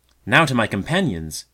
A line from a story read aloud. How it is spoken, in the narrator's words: cried